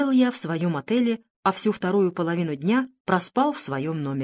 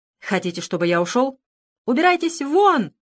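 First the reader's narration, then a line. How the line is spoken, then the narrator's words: Sudden shout. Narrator (Russian): внезапно выкрикнула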